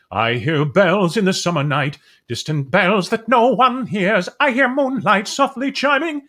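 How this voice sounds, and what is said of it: Sings imitating another singer's tenor. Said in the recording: “Mandy has a very unique voice ... I would go in and out of a Mandy impersonation ... Mandy has that weird tenor”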